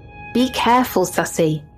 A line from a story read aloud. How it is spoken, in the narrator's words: my grandma yell behind me